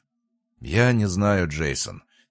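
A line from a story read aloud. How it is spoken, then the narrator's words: Heavy sigh. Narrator (Russian): тяжело вздохнул Ройс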